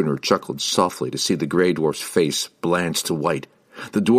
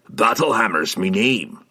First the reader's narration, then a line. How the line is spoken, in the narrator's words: he growled